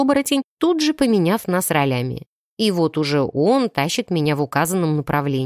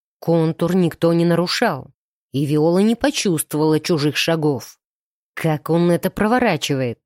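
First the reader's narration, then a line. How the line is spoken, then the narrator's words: Growling. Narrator (Russian): рычал он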